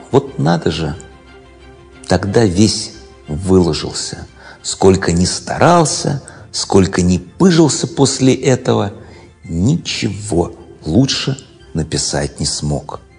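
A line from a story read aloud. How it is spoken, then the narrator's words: Heavy sigh. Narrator (Russian): Серов потом тяжело вздохнул и сказал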